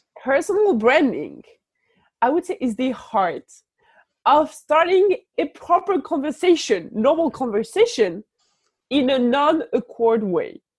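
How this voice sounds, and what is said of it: French accent. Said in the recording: “I don't know if it's understandable with the French accent”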